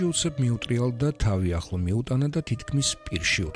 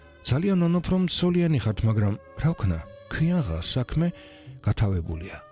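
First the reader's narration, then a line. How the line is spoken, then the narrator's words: Half-cheerful, quietly sad woman. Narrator (Georgian): ქალმა ნახევრად მხიარული კილოთი და ჩუმი სევდა ნარევი ხმით უთხრა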